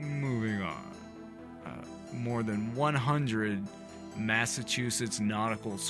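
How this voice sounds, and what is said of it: Usual voice. Nothing is said of it.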